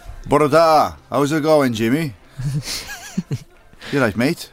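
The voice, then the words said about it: Welsh accent. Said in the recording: “Is that a good Welsh accent? Well, it sounds good to me ... It's a proper Welsh accent”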